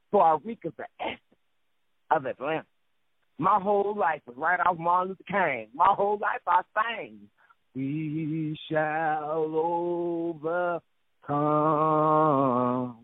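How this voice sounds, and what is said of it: Southern US twang. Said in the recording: “Got to be the South, no doubt. You can tell by the flow of my mouth, my southern twang”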